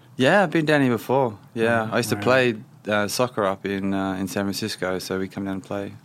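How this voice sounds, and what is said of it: Australian accent. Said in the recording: “Even though I've not lived in Australia for 11 years, I've still got the accent, so I've been told.”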